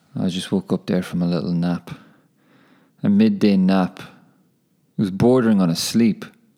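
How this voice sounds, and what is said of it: Somber, sleepy-sounding voice. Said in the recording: “my voice is probably sounding a little bit somber.”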